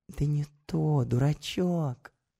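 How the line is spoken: Whisper. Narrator (Russian): продолжает шептать она

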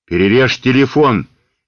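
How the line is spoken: Furious shout. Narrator (Russian): яростно крикнул хозяин

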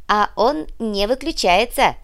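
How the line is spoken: Joyful yelling butler. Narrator (Russian): радостно завопил приплясывающий в дверях дворецкий

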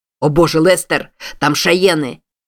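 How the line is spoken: Man shouting. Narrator (Russian): закричал какой-то мужчина своему спутнику

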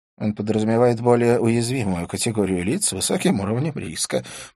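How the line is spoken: Mumbled. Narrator (Russian): промямлил Скорпион

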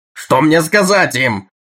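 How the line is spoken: Yelling. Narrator (Russian): вопил диктор программы

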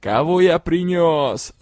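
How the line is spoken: Troll yelling. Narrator (Russian): завопил тролль

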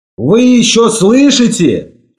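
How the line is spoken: Shouting. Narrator (Russian): крикнул я ему

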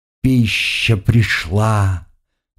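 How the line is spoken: Contented purr. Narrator (Russian): довольно промурлыкала она

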